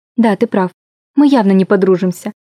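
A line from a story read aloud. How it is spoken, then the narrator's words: Flat colorless voice. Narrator (Russian): сказала я бесцветным голосом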